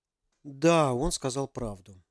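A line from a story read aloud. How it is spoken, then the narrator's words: Quiet. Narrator (Russian): тихо проговорил Ярик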